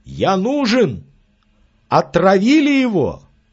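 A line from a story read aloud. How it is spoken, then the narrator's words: Shouted from a distance. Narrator (Russian): неподвижный доктор Аман крикнул из сада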